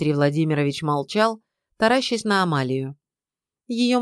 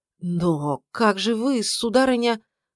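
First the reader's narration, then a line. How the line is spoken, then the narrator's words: Strained, forced out. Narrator (Russian): выдавил из себя следователь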